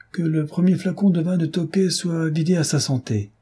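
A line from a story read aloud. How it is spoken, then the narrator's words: Exclaiming. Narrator (French): s'écria le duc de Chartres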